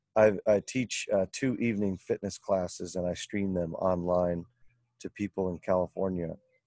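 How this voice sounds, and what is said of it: Strained, worn-out voice. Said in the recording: “my voice has changed and it's kind of going a little bit ... I'm yelling every evening”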